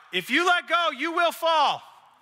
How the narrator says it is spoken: And I just shouted back up

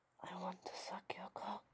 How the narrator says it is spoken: a woman who would look me in the eyes and whisper

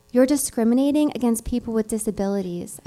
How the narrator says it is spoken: I said

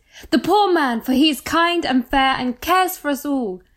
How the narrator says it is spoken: They shouted

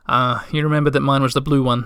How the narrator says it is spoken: Mumintroll said happily

